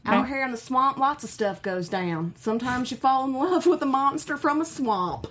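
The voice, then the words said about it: Put-on Louisiana Southern accent. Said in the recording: “her Louisiana accent ... Really good. That's really good.”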